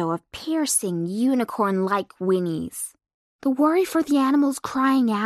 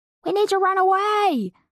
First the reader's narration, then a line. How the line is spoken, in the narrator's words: Slicker yelled